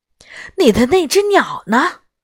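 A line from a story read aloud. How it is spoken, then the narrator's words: Breathless question. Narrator (Chinese): 她气喘吁吁地问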